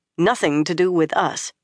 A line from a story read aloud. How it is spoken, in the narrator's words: Nynaeve said firmly